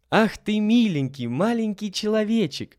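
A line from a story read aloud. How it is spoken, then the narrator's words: Delighted exclamation. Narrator (Russian): воскликнула обрадованная Лиля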